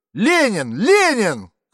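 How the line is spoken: Shouts from front rows. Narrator (Russian): крикнули с первых рядов

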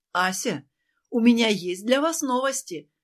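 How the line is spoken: Joyful, over phone. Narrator (Russian): радостно проговорил в трубку ее новый знакомый

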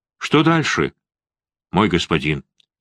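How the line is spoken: Quiet question. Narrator (Russian): тихо спросил

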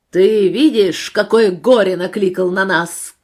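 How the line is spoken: Group shouting. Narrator (Russian): кричали

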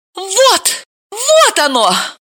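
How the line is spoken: Triumphant exclamation. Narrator (Russian): торжествующе воскликнула Далила

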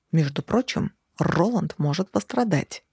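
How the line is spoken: Hiss. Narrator (Russian): прошипел

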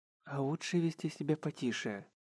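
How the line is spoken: Quiet voice. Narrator (Russian): негромко произнесла Мэри

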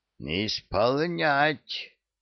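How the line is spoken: Hoarse wheeze. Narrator (Russian): хрипло просипел

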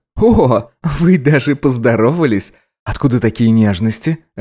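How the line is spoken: Ghostly laughter. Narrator (Russian): рассмеялся призрачный

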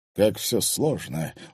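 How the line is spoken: Tired sigh. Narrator (Russian): устало вздохнул Владимир Мезенцев

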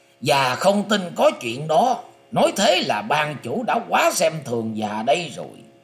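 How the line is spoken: Angry. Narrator (Vietnamese): Thiên Trì Quyền Ông tức giận nói

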